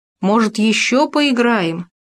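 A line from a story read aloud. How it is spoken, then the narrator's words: Calling out after. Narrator (Russian): крикнул вдогонку Хома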